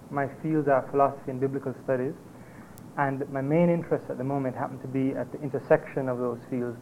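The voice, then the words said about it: Slightly softened Jamaican accent. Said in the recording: “accent, I'm a Jamaican. I've been socialized, and my accent has been changed slightly over about 9 years of living in Canada and the States, but it's still there.”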